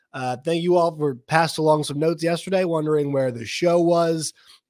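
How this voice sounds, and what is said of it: Hoarse, worn-out voice. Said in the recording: “my voice is shot ... I got sick”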